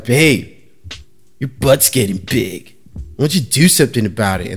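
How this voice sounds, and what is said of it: Skater white guy voice. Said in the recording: “you spoke in that that impression ... like that skater white guy”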